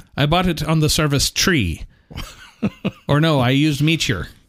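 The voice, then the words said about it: Put-on Irish accent. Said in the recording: “That's a good accent. You got it. You got it down there.”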